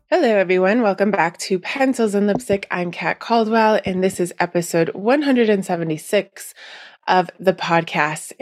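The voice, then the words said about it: Nasal, stuffy congested voice. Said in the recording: “as you can still hear in my voice ... I am slowly getting over my allergies ... I apologize if I sound a bit nasally, yes, or stuffy.”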